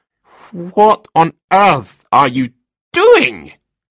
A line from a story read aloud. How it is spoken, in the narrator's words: He spluttered at last